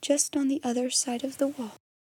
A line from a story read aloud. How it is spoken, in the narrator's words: half whispered